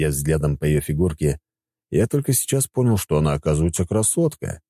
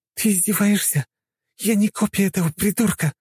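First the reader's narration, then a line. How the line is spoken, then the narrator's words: Hissing. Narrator (Russian): Зашипела она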